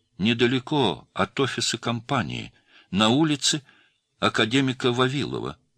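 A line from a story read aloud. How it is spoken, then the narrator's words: Plain. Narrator (Russian): сказала девушка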